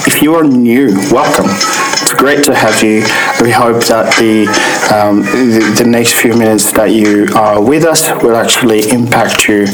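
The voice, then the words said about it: Hoarse, sore-throated voice. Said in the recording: “Please excuse my voice, I've actually got a sore throat at the moment”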